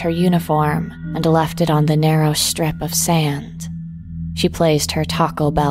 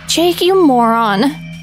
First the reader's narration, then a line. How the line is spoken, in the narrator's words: she panted